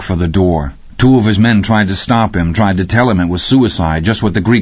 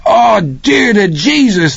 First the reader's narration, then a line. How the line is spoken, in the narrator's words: the kid screamed from the doorway